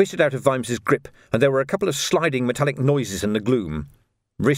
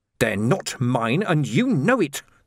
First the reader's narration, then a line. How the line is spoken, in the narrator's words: the man snarled